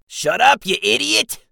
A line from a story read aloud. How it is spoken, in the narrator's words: Jixel snapped